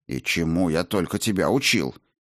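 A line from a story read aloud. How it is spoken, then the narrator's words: Mock-stern grumble. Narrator (Russian): С притворной суровостью проворчал монах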